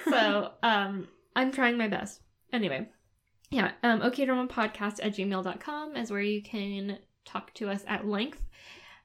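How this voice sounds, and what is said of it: American English accent. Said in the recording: “I have this dumb American accent.”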